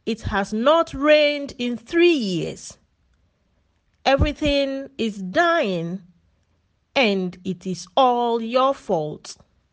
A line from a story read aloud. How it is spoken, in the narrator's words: King Ahab yelled